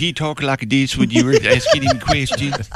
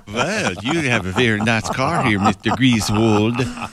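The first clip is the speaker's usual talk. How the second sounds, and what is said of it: Put-on Swedish accent. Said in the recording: “it's Swedish chocolate ... That was the accent I was doing ... I thought you were going German there”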